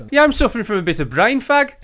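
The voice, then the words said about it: West Country English accent. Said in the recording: “Do it in the West Country accent ... my accent ... not the Black Country accent”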